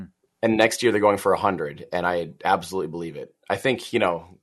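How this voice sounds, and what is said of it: Usual voice. Nothing is said of it.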